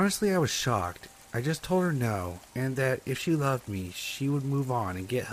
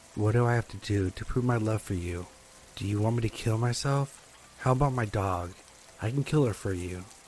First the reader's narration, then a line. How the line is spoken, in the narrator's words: In a calm, monotone voice, she makes me shudder to this day when she said